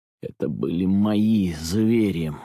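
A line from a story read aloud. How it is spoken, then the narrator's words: Pleading, muffled, wretched whisper. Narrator (Russian): моляще глухо и убого прошептал я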